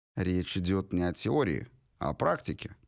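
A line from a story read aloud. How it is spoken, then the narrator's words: Calm reply. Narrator (Russian): спокойно ответил мистер Понт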